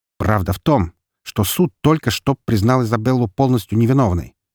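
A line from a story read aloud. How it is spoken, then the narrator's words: Sharp, harsh. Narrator (Russian): резко сказал я ему в лицо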